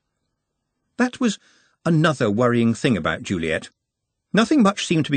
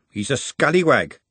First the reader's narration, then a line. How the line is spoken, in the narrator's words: she said firmly